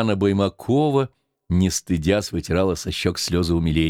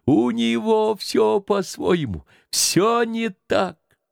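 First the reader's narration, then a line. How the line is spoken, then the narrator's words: Crowd yelling and laughing. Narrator (Russian): Люди орали, хохотали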